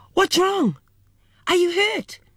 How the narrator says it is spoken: My mother let out a terrified yell, looked at me and screamed

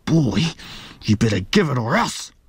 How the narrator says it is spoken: he snarled

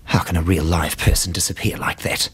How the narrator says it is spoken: She muttered

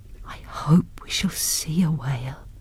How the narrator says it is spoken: whispered Nancy

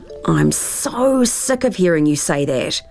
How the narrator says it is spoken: groaned Tara

